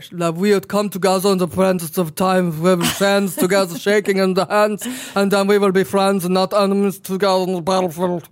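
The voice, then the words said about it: Gibberish speech in Austrian accent. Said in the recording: “add an Austrian accent ... it's gibberish”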